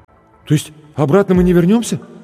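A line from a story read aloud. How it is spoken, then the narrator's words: Frightened young man asking. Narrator (Russian): испуганно спросил зеленоглазый блондин в джинсовой куртке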